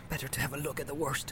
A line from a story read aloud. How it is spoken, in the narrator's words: he muttered